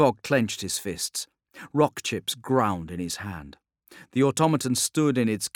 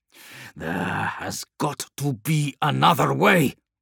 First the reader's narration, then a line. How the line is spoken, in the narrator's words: growled Scryvok